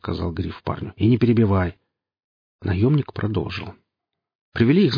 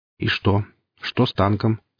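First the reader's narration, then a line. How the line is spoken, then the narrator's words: Plain. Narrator (Russian): спросил Гриф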